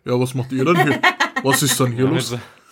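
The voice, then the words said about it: Put-on Cologne Kölsch dialect. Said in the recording (German): “Was ist das für Kölner-Dialekt? ... Mit so einem Kölsch-Dialekt.”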